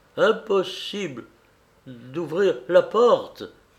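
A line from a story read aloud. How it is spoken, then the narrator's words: Groaning. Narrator (French): fit-il en gémissant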